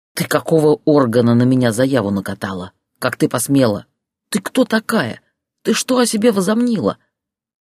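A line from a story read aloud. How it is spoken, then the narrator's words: Hissing over the phone. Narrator (Russian): продолжал шипеть в трубку Борис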